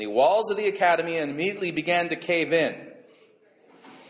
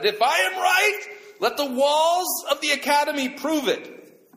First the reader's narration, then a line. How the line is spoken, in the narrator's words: Rabbi Eliezer was by now steaming at the collar and he shouted